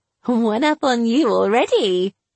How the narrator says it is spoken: giggled, seeing his frustration

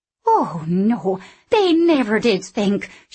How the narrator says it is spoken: she said indignantly

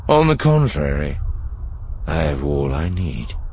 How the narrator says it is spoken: Thrawn said calmly

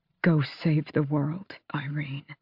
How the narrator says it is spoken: he whispered

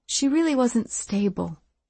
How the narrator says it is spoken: she said, her voice almost gentle

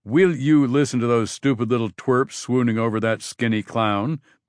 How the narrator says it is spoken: Ben grumbled

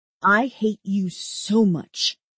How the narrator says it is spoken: I snarl

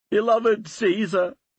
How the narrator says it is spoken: wailed some

